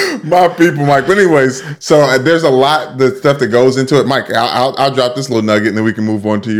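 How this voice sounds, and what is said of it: Usual voice. Nothing is said of it.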